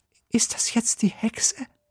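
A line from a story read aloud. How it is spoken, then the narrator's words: Whisper. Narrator (German): flüstert Sophia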